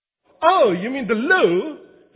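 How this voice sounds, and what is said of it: Fake British accent. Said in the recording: “that's my fake British accent”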